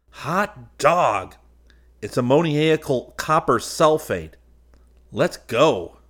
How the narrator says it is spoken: He yelled

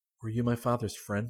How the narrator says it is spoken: asked anxiously

